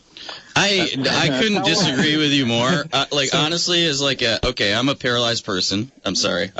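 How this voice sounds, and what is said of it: Speaking too loudly. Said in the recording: “I'm talking too loudly.”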